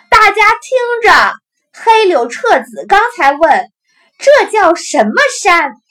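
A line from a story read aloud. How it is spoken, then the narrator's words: Breathless calling while running. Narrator (Chinese): 大姐跌跌撞撞的跑下楼梯，一边叫着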